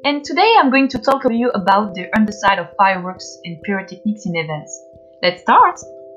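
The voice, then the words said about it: French accent. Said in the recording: “I'm French, as you can see from my accent.”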